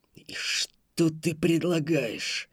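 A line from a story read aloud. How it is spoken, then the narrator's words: Angrier voice, questioning. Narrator (Russian): более злым голосом спросил Утриван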